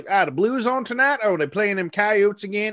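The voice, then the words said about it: Put-on regional accent. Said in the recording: “I don't know why I did an accent there like that. But it kind of just came out of nowhere. People in Missouri don't talk like that.”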